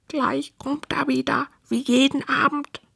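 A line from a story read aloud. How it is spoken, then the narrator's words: Three whispering together. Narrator (German): flüstern die drei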